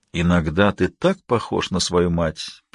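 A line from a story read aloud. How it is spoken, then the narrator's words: Sad. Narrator (Russian): печально сказал Аспект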